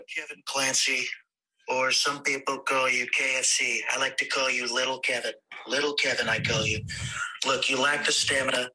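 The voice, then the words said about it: Donald Trump impression. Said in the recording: “a phenomenal Trump interview impression ... It's a pretty good fucking Trump impersonation.”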